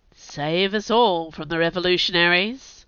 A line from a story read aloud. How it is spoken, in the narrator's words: Cyrus said dryly